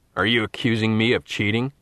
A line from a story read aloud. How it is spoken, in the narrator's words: Elliot snapped back